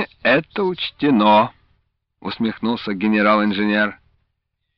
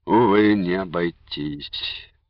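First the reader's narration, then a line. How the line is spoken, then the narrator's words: Sad agreement. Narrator (Russian): грустно согласился Матвей Иванович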